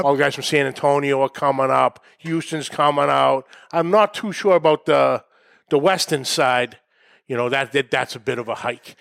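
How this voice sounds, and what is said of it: Thick New England accent. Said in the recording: “Keep the accent thick... my New England”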